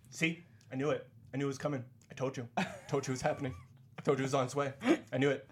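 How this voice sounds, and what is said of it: Imitates another person's voice. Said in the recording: “my impression of somebody that we know”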